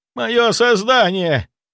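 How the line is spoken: Yelling. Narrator (Russian): завопил Зайцев

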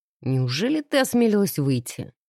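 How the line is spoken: Chuckling. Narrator (Russian): хохотнул Алекс в ответ

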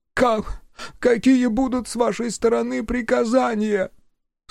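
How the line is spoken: Tired lifeless voice. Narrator (Russian): Словно бы очнувшись ото сна, Гостон произнесла усталым, безжизненным голосом

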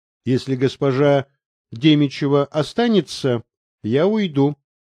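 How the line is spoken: Plain. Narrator (Russian): сказала Наталья Борисовна

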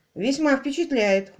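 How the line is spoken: Snort. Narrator (Russian): хмыкнул Квиллер

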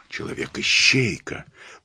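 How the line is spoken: Whispered. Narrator (Russian): прошептал Пуаро

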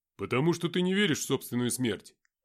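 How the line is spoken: Steely voice, just woken. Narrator (Russian): стальным голосом сказал проснувшийся Никита

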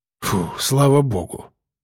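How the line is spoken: Relieved exhale. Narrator (Russian): выдохнул он

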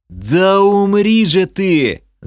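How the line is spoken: Yelling. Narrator (Russian): заорал я

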